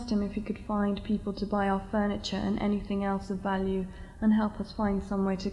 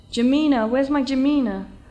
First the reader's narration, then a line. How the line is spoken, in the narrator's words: Suddenly shouted